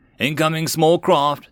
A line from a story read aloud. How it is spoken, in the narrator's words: the gunners yelled